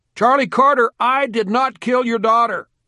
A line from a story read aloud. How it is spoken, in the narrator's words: He saw the victim's father and yelled